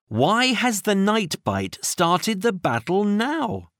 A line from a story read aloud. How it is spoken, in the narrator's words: Minnie asked